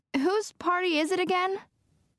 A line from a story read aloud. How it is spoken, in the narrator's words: I shout, trying to be heard over the traffic